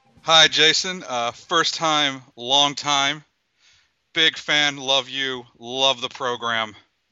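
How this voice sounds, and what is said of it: Sports talk radio voice. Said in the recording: “That's my sports talk radio voice right there.”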